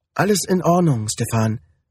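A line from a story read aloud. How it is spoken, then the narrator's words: Plain. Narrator (German): sagte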